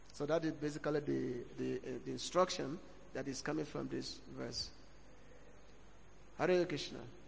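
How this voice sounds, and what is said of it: Speaker's own strong accent. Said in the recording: “you have my own accent. Sometimes you may find it difficult to understand me.”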